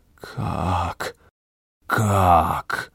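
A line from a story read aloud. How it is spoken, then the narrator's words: Forced out. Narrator (Russian): выдавил из себя Артар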